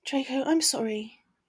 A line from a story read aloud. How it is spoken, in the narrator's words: she hummed with disappointment